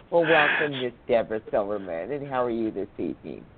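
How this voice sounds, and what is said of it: Southern US accent. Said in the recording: “I actually am enjoying listening to your sweet accents. I wish I was from down south.”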